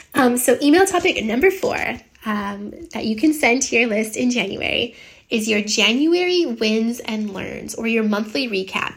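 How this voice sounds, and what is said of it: Congested voice, has a cold. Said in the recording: “I don't know if you can hear. I have a bit of a cold.”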